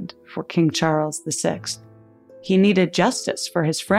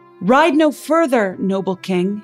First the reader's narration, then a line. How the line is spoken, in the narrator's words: he shouted